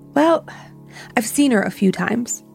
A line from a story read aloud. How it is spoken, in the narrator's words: My roommate heaved a heavy sigh and said